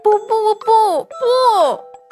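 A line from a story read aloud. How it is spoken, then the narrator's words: Babbling cry. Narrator (Chinese): 嘴里还咿咿呀呀的叫着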